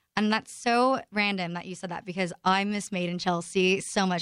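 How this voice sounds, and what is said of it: Faint British accent. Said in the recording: “I can hear the accent come out occasionally.”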